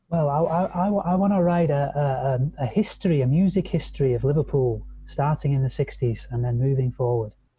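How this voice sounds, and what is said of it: Liverpool English accent. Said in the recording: “I really like that accent. ... I'm a proud Liverpoolian from the northwest of England.”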